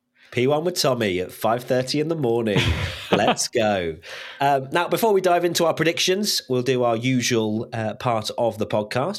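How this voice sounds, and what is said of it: Strained hoarse voice, sore throat. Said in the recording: “I'm going high, but not loud, because my voice is on the ropes today ... I think I've got a bit of a sore throat.”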